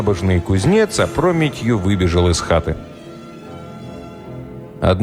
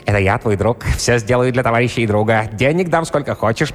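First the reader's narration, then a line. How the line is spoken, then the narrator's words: Squeaky voice into ear. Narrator (Russian): пискнул он ему в левое ухо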